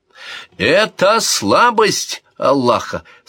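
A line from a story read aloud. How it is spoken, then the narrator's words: Plain. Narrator (Russian): сказал один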